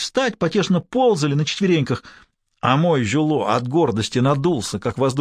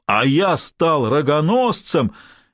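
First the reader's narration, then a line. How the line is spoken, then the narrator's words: Roaring piano. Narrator (Russian): Это взревело пианино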